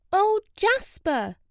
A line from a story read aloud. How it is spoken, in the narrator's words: Jenny cried